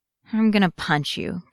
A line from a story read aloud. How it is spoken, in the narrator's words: Cody grumbles